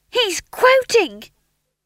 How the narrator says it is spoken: he shouted

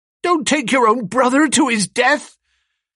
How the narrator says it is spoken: shouted

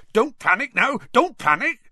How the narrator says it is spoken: Hagrid was soon yelling

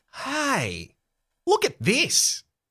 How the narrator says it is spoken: Max exclaims

